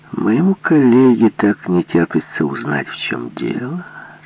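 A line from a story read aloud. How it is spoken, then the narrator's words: Gentle yet displeased question. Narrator (Russian): спросил ласково и недовольно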